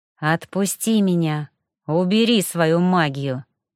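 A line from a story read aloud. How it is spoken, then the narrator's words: Through gritted teeth. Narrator (Russian): Снова сквозь зубы произнесла я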